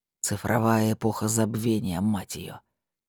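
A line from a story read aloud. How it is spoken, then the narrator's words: Grumbling under breath. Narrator (Russian): буркнул себе под нос Диггер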